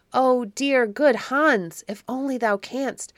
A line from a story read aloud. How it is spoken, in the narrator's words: cried Otto